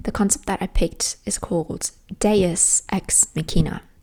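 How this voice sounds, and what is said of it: Put-on British accent. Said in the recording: “I'm gonna have to morph into British, and I'm working on my British accent. Don't come at me.”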